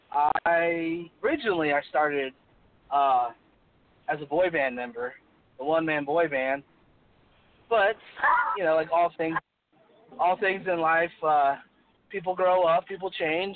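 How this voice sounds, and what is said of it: Hoarse voice. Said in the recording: “Pardon my voice. I'm a little hoarse right now, so can't really sound like myself.”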